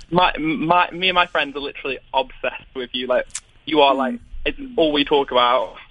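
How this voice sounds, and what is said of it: British accent. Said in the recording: “I'm calling from the UK ... I love your accent.”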